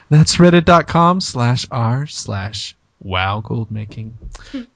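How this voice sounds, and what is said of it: NPR public radio announcer voice. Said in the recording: “let me do it in my NPR voice.”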